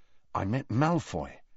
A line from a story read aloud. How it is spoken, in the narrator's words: Harry told her quietly